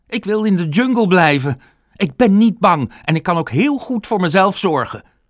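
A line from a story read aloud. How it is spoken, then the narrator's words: Shouting man. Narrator (Dutch): schreeuwde hij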